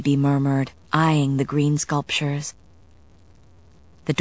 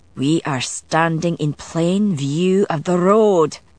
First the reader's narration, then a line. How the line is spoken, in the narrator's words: Galloglass growled